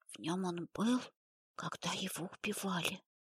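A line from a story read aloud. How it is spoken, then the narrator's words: Whisper. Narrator (Russian): прошептала Полина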